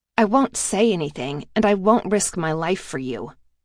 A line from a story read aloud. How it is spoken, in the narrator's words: I said coldly